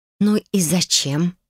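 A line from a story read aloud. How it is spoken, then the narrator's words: Tense, barely audible, through teeth. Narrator (Russian): процедила чуть слышно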